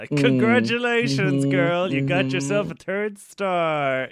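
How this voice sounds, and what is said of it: Talking through clamped teeth. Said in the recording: “good Che impression. She doesn't move her mouth too much. Like, the teeth stay clamped.”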